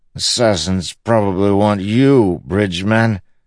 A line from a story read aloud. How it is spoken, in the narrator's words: the king muttered